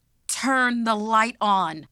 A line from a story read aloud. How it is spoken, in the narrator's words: she yelled